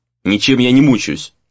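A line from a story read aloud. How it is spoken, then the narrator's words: Sharp, fed-up reply. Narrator (Russian): резко ответил Рей, которому уже надоел этот разговор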